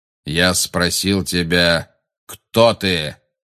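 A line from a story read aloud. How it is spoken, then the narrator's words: Rough repetition. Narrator (Russian): грубо повторил Магориан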